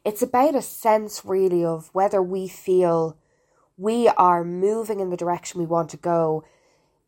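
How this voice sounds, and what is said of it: Weak, fading voice. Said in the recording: “I'm just getting over a sinus infection. I feel like my voice is going, so I hope you can hear me.”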